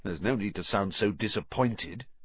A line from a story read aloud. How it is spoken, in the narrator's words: he said grimly